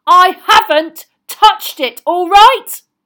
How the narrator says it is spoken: Ron roared back

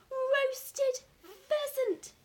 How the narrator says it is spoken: he cried out, addressing the moon and the entire countryside

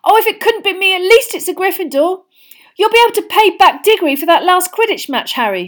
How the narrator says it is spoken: shrieked Katie Bell, another of the Gryffindor chasers

